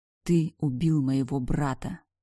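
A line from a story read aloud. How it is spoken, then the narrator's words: Restrained growl through teeth. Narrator (Russian): сквозь зубы прорычала я, стараясь не сорваться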